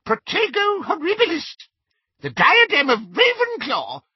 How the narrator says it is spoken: squeaked Flitwick

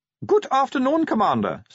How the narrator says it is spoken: said Otto Shriek cheerfully

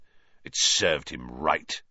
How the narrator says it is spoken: he sneered

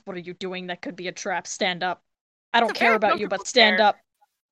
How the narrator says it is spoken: I mutter to Grace

